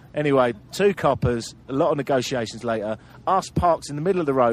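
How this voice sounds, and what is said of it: Usual voice. Nothing is said of it.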